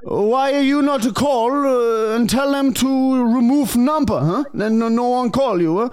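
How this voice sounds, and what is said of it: Put-on foreign accent, broken English. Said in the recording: “because I have accent ... strange foreign man”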